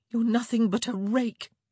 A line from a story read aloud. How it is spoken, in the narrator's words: she said, wishing her voice had emerged with a bit more disdain and a bit less quavering